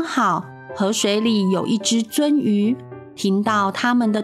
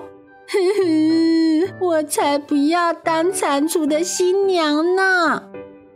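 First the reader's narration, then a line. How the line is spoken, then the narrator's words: Crying. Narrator (Chinese): 呵呵呵呵，拇指姑娘哭着说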